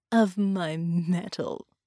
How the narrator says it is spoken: chuckled

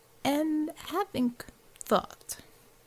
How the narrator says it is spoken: Savior said slowly

